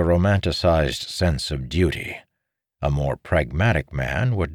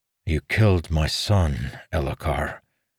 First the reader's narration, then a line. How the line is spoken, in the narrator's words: Dalinar replied in a tired, solemn voice